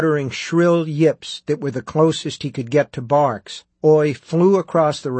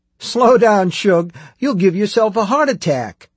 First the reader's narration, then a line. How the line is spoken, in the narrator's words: Susanna shouted, laughing